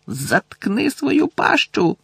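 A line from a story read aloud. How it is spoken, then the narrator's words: Shout. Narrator (Ukrainian): крикнув Рон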